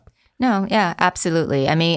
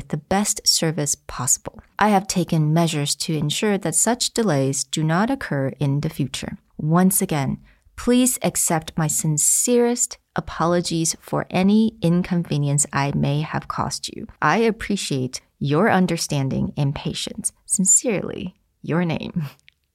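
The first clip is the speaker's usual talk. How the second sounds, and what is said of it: Dramatic theatrical reading voice. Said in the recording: “I did some dramatic reading there”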